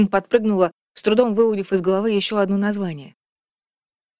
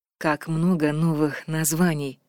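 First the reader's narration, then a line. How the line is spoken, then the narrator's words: Purring. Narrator (Russian): промурлыкала Вильварин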